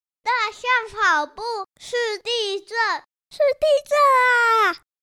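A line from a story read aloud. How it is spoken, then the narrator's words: Shouting while running. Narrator (Chinese): 小溪一边跑一边叫着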